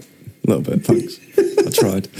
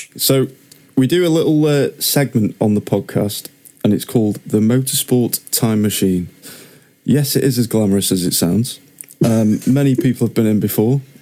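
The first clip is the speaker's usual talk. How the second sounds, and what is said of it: Deadpan delivery. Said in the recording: “Is that like a deadpan version of way of doing this”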